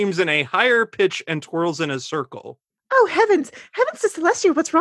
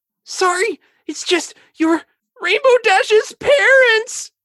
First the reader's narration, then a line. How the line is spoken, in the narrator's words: More screaming